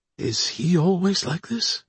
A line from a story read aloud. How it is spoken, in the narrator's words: Johnson whispered